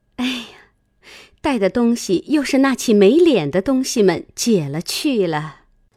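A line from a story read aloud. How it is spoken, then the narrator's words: Sly, sneering laugh. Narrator (Chinese): 袭人 阴笑道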